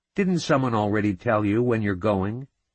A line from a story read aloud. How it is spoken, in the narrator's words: She snapped back